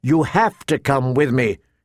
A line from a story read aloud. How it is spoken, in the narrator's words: she told her sister firmly